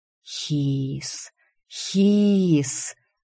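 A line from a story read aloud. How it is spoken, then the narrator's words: Hissing. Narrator (Russian): Они шипели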